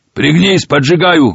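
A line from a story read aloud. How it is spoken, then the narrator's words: Shout. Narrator (Russian): выкрикнул Машин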